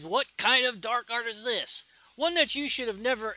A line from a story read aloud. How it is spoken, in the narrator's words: he screams